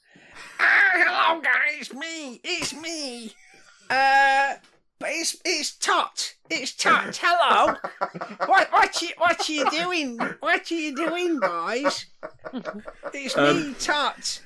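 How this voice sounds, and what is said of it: Goblin character voice. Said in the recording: “do the goblin voice ... impression”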